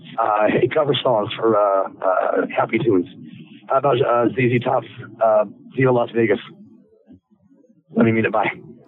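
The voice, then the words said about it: Slightly hoarse voice. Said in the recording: “Sorry about my voice. I'm a little hoarse.”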